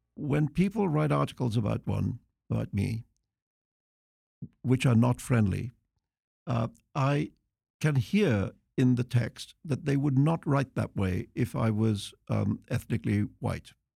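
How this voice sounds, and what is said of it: Refined British accent. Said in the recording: “you have this very civilized British accent”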